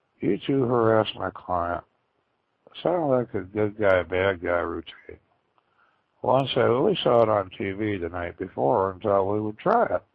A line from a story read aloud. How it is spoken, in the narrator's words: I said in a calm, collective voice